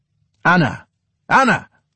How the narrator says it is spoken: the father shouted into the kitchen through the vestibule

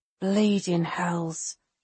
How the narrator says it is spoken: Avitas murmurs

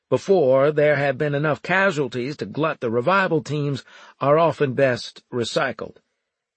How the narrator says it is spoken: I continued loudly

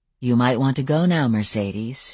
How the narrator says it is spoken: she said in the same soothing tones

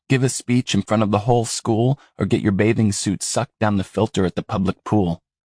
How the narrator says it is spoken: Ephraim groaned

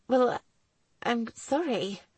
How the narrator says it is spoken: she mumbled, stunned by his reaction

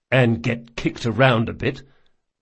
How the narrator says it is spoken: muttered Locke

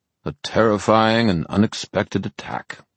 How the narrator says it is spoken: he said in a bored voice

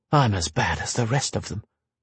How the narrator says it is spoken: Verna muttered

